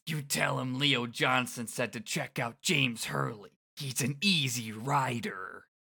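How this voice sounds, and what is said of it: Bad gravelly voice impression. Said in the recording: “doing a very bad Leo Johnson impression... it's just gravel voice”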